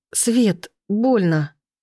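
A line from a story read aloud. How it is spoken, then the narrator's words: Pained moan. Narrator (Russian): простонать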